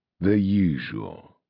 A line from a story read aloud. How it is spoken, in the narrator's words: said Arcturus wearily